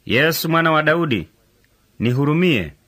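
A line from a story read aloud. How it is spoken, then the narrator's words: Loud cry. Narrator (Swahili): Naye akapaza sauti akisema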